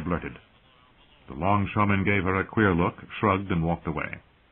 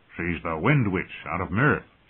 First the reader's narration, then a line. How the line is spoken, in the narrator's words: said